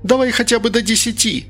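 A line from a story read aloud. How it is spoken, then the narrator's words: Shouted out a window. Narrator (Russian): закричала Инга в окно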